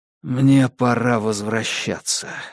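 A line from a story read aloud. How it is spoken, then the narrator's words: Hoarse. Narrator (Russian): хрипло проговорил я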